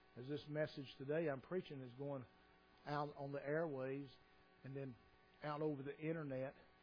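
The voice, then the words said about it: Hillbilly accent. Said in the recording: “are there hillbillies that live there that understand and follow my accent?”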